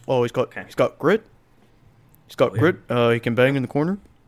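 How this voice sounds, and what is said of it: Imitates another person's voice. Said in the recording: “my Babcock impression.”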